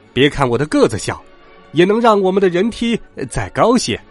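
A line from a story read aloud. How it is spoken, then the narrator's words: Croaking. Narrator (Chinese): 青蛙弗洛格呱呱叫着说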